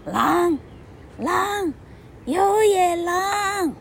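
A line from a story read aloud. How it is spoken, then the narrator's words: Loud shout through cupped hands. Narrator (Chinese): 他又把手放在嘴边，当做一个话筒，大声喊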